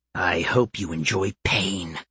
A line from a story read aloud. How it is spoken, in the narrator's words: the enemy hissed